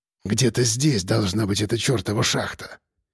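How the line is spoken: Quiet breathy. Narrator (Russian): тихо выдохнул капитан

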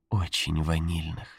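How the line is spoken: Tender. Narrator (Russian): сказала она нежно

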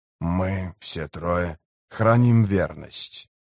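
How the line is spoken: Muttering. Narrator (Russian): пробормотал он

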